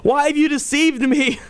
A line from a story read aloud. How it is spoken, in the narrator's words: she cried out at the top of her voice and said to Saul